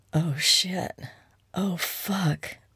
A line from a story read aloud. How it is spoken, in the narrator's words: Maxine groaned